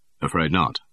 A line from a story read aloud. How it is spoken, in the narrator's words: said Bond